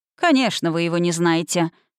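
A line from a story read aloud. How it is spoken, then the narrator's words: Skeptical snort. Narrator (Russian): хмыкнул мэр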